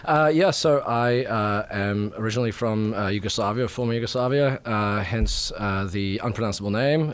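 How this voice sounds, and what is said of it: Speaks with a non-American accent. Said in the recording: “where that accent comes from”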